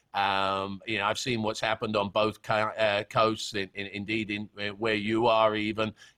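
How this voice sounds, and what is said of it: British accent. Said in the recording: “having a British accent is a, is a funny thing down here in Florida”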